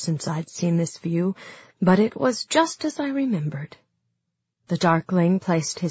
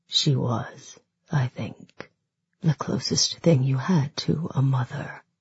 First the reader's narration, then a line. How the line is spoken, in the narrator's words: murmured the Tarkling